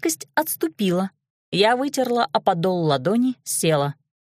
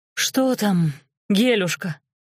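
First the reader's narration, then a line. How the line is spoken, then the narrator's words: Moaned. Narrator (Russian): простонала Квашнина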